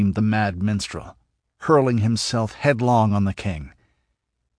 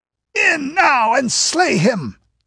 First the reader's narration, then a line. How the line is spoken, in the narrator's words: yelled Escalante